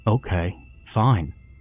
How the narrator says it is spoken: Jeremy said hesitantly

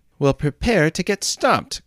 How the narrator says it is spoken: cried Jesse

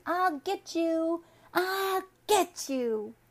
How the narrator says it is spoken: shouting

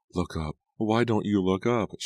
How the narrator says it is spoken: she pleaded

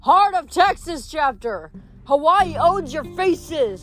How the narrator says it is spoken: a third one shouted

